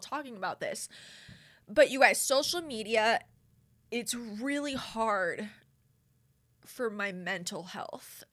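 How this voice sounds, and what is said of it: Emotional, choked-up voice. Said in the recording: “I'm trying not to get emotional ... I did not think I was going to get emotional”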